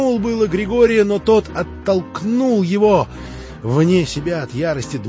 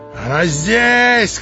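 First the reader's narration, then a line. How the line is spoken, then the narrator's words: Shouting. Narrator (Russian): кричал Дмитрий Федорович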